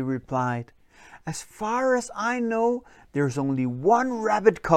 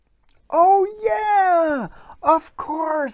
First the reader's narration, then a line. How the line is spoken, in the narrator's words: exclaimed Paul Troll